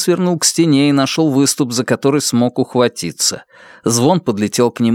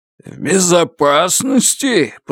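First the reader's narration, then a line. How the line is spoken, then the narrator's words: Growled. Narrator (Russian): прорычал поток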